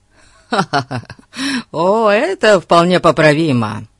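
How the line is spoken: Laughing. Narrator (Russian): Засмеялся Фати

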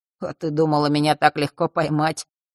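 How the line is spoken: Grumbling mutter. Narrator (Russian): Он пробурчал

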